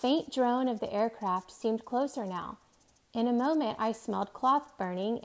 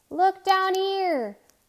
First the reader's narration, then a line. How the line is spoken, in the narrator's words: He shouted